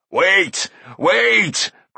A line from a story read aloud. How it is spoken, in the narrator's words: cried Carl